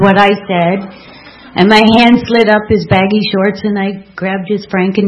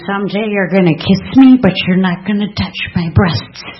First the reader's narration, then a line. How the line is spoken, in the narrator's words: I whispered to him